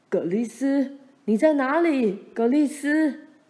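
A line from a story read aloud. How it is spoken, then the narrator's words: Faint distant calling. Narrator (Chinese): 大沼泽那边也隐约传来爸和妈的叫声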